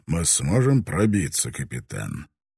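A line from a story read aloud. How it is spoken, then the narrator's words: Calm question. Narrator (Russian): Таранага спросил спокойно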